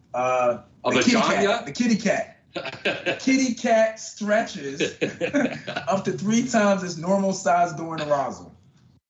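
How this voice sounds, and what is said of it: Philadelphia accent. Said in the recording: “You got that Philly accent. I'm hearing.”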